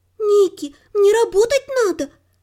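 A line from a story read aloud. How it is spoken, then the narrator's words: Pleading. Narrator (Russian): наконец взмолилась горничная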